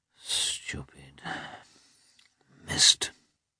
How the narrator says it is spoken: he muttered

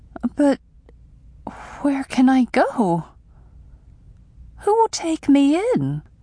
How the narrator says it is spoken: I asked shakily

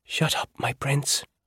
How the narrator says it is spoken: she whispered back

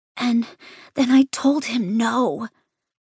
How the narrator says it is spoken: Nico whispers

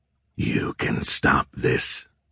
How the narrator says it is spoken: Azrael whispering into his ear

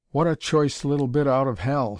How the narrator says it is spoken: he exclaimed

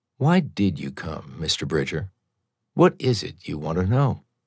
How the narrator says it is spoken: Speaking more softly, she said

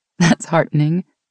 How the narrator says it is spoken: Meg said with a laugh

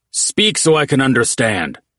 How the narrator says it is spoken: Oates barked in Orcish

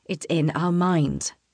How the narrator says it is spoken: Raphael says slowly

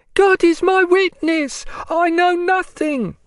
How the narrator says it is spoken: screamed a prisoner from the other side

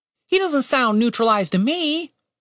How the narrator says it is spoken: Tim said over the screeching

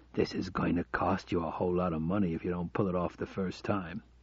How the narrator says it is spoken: He whispered in his ear

